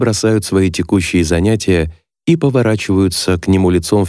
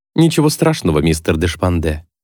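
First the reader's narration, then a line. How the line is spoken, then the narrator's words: Calm. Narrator (Russian): спокойно говорит Райан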